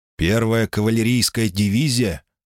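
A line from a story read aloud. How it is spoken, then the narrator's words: Plain. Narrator (Russian): спросил Лайм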